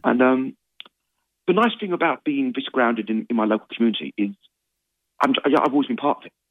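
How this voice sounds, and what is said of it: Cockney accent. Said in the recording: “I never lost the old Cockney twang.”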